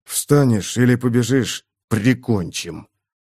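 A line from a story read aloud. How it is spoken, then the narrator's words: Contemptuous, through gritted teeth. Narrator (Russian): Бросил сквозь зубы с презрением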